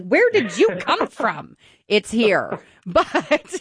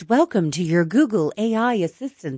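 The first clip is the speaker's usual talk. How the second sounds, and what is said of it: Imitates an AI assistant voice. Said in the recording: “that was pretty good. I think you could be doing that voice”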